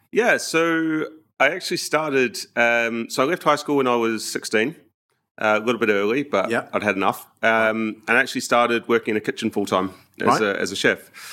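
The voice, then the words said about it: New Zealand accent. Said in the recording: “you're from New Zealand, based on the accent.”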